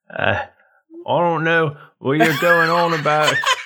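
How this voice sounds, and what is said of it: Put-on British accent. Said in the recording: “Where's your British accent ... Oh, there it is ... That's way better.”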